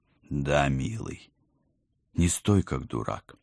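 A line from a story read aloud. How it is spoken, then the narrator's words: Tender smiling voice. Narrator (Russian): нежно улыбнулась я любимому мужу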